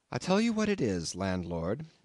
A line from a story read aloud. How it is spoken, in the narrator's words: I said quite calmly